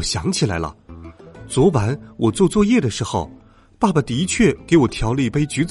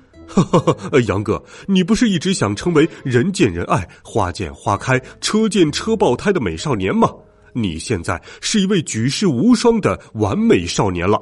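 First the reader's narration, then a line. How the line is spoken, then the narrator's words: Laughing father. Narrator (Chinese): 爸爸大笑说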